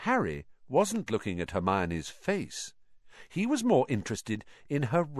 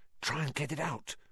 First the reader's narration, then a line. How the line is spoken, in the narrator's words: Ron whispered